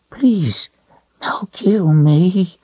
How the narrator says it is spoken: it repeated in a whimper

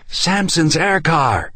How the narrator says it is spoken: Ann shouted

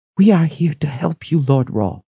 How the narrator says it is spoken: she whispered

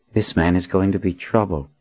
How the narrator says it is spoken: muttered

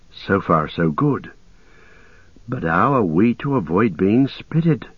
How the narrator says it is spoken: Merry whispered softly

